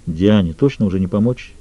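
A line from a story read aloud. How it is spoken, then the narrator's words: Quiet. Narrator (Russian): тихо произнес Лютер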